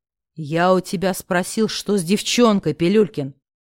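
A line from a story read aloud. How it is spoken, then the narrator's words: Growl. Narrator (Russian): прорычал знакомый мне голос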